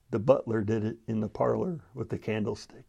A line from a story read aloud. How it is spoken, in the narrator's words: leaned over and whispered